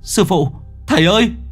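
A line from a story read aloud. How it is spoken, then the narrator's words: Boy crying out. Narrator (Vietnamese): Thằng Lượng kêu lên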